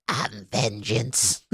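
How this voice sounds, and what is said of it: Bad Donald Duck-style cartoon duck voice. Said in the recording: “Like the Donald Duck voice ... That was a terrible duck impersonation.”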